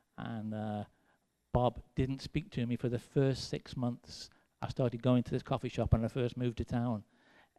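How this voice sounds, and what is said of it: English accent. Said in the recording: “I got this cute accent ... I have this English accent.”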